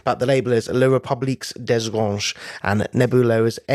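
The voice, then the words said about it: French accent on a name. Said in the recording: “I am loving the French flourish in that ... putting on a little accent. But that is beautiful.”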